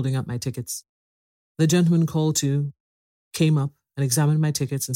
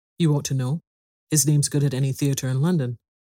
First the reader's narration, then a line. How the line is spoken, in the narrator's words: I answered rather sharply